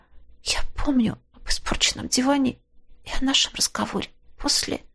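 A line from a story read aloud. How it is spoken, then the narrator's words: Lowered to a whisper. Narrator (Russian): Она понизила голос до шепота и добавила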